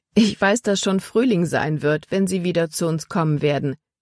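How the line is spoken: Plain. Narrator (German): sagte sie

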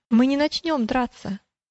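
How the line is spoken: Calm reply. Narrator (Russian): ответил великодушный спокойно

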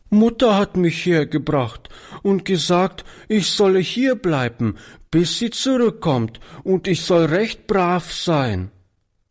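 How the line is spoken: Sobbing little girl. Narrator (German): erklärte die Kleine schluchzend

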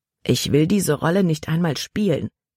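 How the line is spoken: Plain. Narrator (German): sagte Caleb

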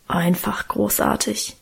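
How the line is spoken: Reverent mumbling. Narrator (German): brummelte Guste andächtig

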